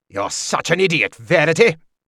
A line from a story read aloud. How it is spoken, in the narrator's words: Regal spat